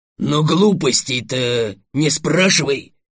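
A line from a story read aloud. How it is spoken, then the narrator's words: Barking roar. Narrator (Russian): рявкнул оранжевый дракон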